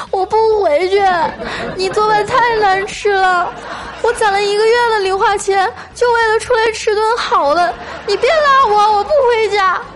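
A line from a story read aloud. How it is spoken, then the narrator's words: Hysterical crying child. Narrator (Chinese): 那小男孩歇斯底里的哭喊着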